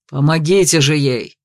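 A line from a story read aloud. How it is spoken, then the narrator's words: Nervous growl. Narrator (Russian): рыкнул Ренгельд, заметно нервничая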